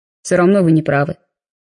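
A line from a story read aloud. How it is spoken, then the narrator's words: Calmer reply. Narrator (Russian): более спокойно ответил он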